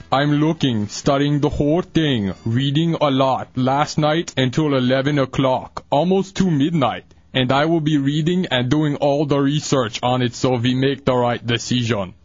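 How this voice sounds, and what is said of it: Poor Arnold Schwarzenegger impression. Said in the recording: “in your best Arnold voice ... Yeah, that was awful.”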